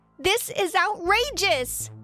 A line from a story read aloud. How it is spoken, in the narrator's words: yelled out